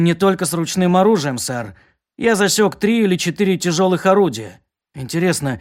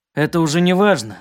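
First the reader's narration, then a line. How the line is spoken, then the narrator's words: Gloomy. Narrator (Russian): мрачно сказал Кирк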